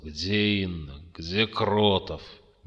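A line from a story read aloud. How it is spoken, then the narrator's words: Gloomy. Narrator (Russian): Жуков мрачно уставился в пол и сказал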